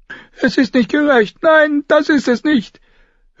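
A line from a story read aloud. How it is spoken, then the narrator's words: Old woman wailing. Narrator (German): eine alte Frau jammern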